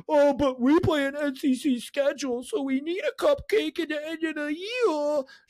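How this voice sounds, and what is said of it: Imitates another person's voice. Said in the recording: “It's a really good impression.”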